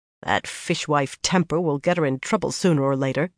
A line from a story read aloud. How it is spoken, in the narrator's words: Suan muttered